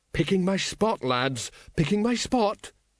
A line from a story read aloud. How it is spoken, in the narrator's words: quavered Colon